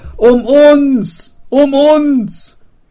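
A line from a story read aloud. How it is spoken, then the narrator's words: Everyone screaming together. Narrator (German): schrien alle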